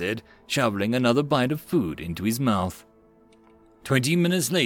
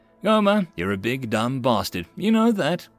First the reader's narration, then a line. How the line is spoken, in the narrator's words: Kowalski laughed